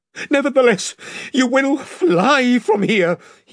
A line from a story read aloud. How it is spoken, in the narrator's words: he gasped